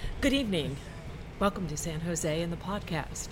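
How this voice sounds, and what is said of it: Formal announcer voice. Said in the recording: “doing your announcer voice or are you doing your uh, podcast voice?”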